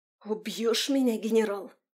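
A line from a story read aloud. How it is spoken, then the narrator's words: Hissing. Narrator (Russian): прошипела Марион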